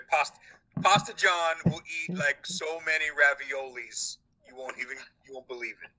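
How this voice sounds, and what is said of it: Put-on New York accent. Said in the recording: “got a little Trumpy there in your accent ... I was going for New York”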